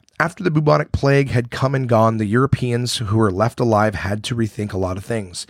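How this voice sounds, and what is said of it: Hoarse voice. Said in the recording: “my voice is still hoarse and I'm still a little sick”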